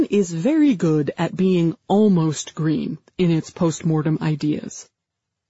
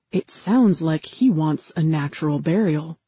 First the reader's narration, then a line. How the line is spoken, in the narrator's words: I whispered to Jordi